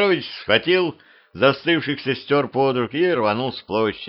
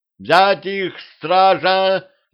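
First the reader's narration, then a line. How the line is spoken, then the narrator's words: Yelling. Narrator (Russian): заорал Гриша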